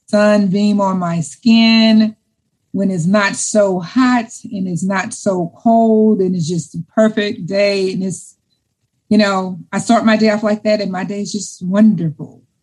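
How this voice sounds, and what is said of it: Smiling, happy-sounding voice. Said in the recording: “you can probably hear the smile in my voice”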